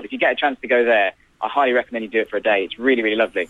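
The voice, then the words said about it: Worcestershire English accent. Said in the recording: “I'm from Worcestershire. That's where my accent's from, where I grew up.”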